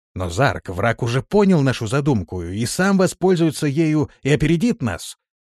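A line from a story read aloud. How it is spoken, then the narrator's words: Exclaiming commander. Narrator (Russian): воскликнул один из командиров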